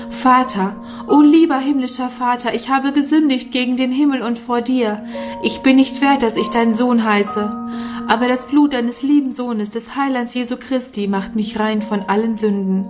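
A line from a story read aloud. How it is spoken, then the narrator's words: Crying out into night. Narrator (German): rief in die schreckliche Nacht hinaus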